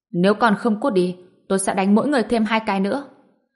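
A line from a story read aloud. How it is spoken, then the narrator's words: Cold threat. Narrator (Vietnamese): Ngô Bình lạnh lùng nói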